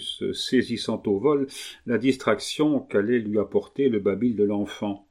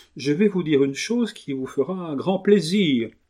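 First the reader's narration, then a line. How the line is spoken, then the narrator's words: Small bee exclaiming. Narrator (French): s'écria la petite abeille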